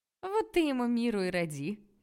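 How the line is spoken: Cheerful suggestion. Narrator (Russian): весело предложила Рая

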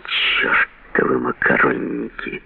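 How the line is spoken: Quiet, angry. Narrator (Russian): Чалмерс тихо и со злостью сказал

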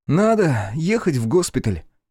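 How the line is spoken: Sigh. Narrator (Russian): Вздохнул он

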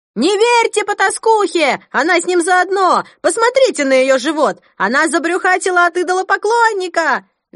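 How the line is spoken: Shrill woman's voice, echoing. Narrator (Russian): Визгливый женский голос разнесся под сводами зала, отозвавшись многократным эхом

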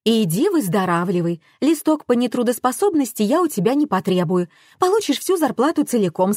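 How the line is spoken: Plain. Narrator (Russian): сказала Раиса

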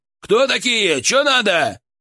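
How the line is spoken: Shout. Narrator (Russian): он крикнул

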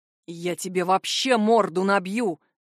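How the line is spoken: Growl. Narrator (Russian): рыкнул Джар на друга

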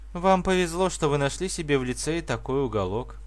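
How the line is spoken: Sighed. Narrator (Russian): вздохнула

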